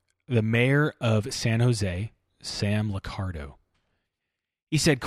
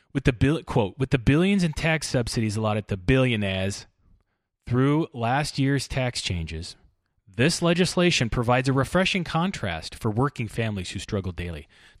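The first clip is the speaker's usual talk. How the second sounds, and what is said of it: Imitates another person's voice. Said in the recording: “I cannot say that word anymore without a Bernie Sanders accent ... in my head. So that's what I'm going to do when I read.”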